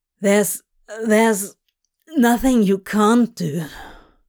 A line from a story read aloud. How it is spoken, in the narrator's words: he added hoarsely